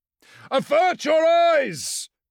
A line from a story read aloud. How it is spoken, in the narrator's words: Phostos shouted